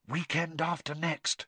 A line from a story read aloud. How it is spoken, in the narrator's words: whispered Hermione